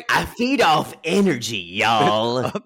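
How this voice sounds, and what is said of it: Gary Busey impression. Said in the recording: “my Shane voice is also my Gary Busey voice”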